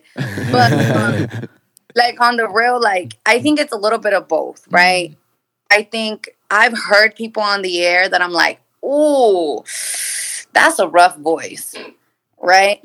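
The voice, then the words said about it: Friendly, prominent radio voice. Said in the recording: “I feel like you have a radio voice. ... I feel like you have a very radio voice. ... it's friendly. ... Very prominent. ... I think you got the radio voice”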